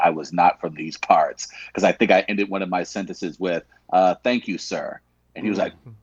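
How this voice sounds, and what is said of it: Usual voice. Nothing is said of it.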